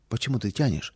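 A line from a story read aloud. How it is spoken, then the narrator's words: Quiet impatient question. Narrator (Russian): Мама не могла дождаться ... тихо спросила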